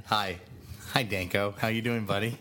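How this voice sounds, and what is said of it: Impression of Flanagan. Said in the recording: “Are you doing an impression of me, too, like ... Flanagan? ... That's my Flanagan impression. ... That's a pretty good Flanagan.”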